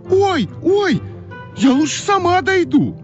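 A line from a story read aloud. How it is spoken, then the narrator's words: Shout. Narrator (Russian): Да как закричит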